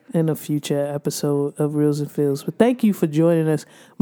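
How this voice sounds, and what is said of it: Hoarse voice. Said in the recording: “My voice is actually getting a little hoarse. ... A little horse. Sound like this. ... I sound like this all the time.”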